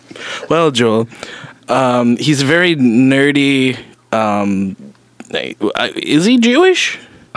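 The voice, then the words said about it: Put-on Jewish accent. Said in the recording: “asking a question in what I can only assume is a Jewish accent”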